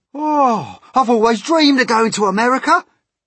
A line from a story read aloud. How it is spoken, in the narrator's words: cried the centipede